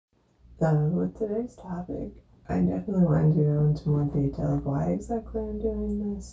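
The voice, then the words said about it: Hoarse, fading voice from illness. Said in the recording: “I am kind of losing my voice because I've been sick the last couple days”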